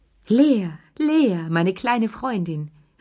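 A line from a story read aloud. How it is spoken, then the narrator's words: Old woman calling out. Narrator (German): rief die alte Lilli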